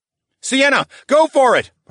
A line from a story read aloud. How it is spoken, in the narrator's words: shouted